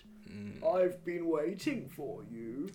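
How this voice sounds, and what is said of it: Very old man's voice. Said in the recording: “The voice of a very old man”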